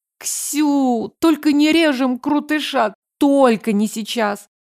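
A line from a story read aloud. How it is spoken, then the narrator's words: Groan. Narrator (Russian): Застонала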